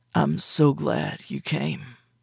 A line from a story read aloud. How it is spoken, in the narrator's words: he whispered